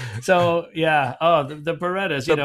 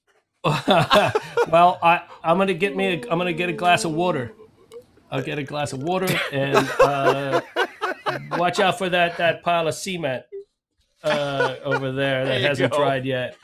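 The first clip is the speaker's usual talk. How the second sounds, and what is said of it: Put-on Philadelphia accent. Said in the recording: “let's hear a little of your best Philly accent.”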